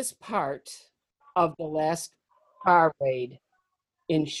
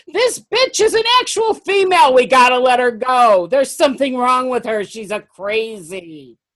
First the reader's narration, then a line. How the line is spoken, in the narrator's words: he started yelling to the other officers